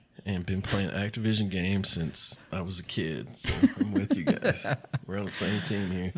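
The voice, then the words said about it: Southern American accent. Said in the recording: “a southern accent”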